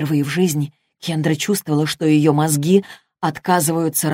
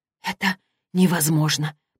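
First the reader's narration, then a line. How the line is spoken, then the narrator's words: Whispered. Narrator (Russian): прошептала она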